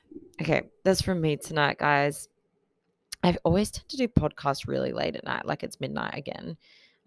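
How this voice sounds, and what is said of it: Tired, low-energy voice. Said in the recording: “I sound a bit tired,”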